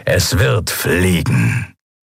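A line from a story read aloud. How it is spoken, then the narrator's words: Satisfied grumble. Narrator (German): brummte der Skria hörbar zufrieden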